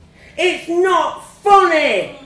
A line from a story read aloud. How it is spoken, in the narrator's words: I screamed